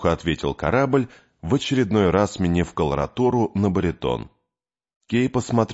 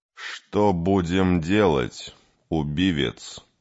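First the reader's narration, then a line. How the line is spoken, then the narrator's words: Plain. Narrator (Russian): спросил Кей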